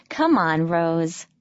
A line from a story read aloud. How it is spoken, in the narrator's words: laughed Lissa